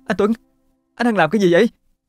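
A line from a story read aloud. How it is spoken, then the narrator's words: Uncontrolled cry. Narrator (Vietnamese): Thấm không kìm được mà la lên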